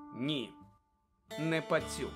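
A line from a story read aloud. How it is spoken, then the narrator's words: Calm confirmation. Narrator (Ukrainian): спокійно підтвердив Люпин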